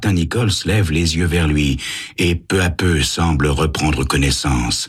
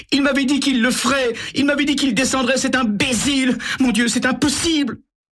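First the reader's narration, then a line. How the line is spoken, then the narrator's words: Bursting into sobs. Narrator (French): Elle éclate en sanglots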